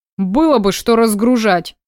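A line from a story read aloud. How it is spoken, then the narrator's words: Grumbling. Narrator (Russian): пробурчал Никита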